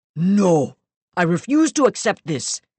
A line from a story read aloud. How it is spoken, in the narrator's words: he shouted